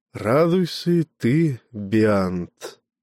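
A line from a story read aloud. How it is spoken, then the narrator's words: Sighing. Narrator (Russian): вздохнул Меламп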